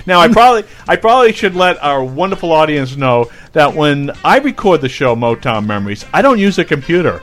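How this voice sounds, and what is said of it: Boston accent. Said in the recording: “I have this funky Boston accent”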